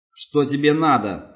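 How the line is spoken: Shouting again. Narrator (Russian): снова закричал Крум

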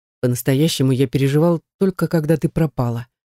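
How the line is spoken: Seemingly calm. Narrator (Russian): говорит преподаватель вроде бы спокойно

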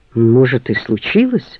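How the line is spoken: Sheepish downcast mutter. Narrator (Russian): потупившись, пробормотал Юра

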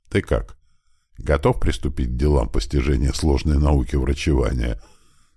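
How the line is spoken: Solemn, faintly ironic question. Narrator (Russian): Торжественным тоном, с едва заметной чуточкой иронии, спросила она

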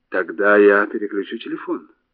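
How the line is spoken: Plain. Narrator (Russian): сказала экономка

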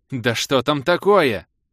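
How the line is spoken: Stunned shouting, growing louder. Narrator (Russian): закричал в ответ и тут же в полном обалдении завопил еще громче

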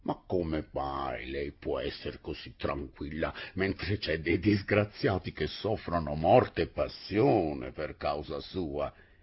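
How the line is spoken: Low-voiced question. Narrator (Italian): le domandò a voce bassa

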